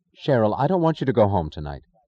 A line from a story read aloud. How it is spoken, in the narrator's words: Prompted by a sudden causeless certainty, Dagny said sharply